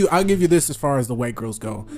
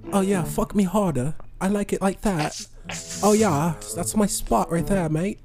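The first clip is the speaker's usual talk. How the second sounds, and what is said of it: Put-on English woman's accent. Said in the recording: “The English women. ... With the accent?”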